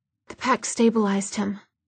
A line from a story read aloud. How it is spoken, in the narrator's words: Jocelyn was saying in an exhausted voice